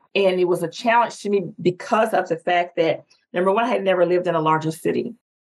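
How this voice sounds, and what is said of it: Southern US accent. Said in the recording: “I'm from the South, my biggest challenge was my accent”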